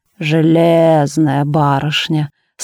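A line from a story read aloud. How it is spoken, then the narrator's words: Drawn out, admiring. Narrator (Russian): с явным восхищением протянул Донат Абрамыч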